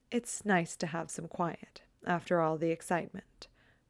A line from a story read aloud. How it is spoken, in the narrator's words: Pearl says